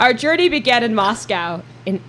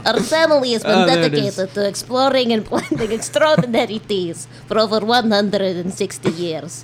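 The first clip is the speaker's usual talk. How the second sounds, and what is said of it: Deliberately bad fake Russian accent. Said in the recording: “I can try it in a terrible Russian accent ... now back to my normal voice”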